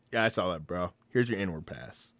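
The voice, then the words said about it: Lowered voice, put-on character voice. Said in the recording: “why are you dropping your voice? ... I, am doing a black voice”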